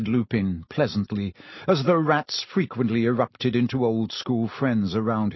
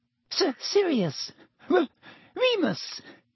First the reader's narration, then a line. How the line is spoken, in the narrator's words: Even Pettigrew's voice was squeaky